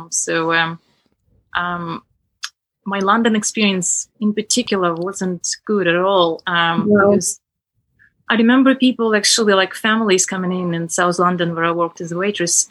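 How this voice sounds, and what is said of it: Very strong foreign accent. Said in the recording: “I still have a very strong accent”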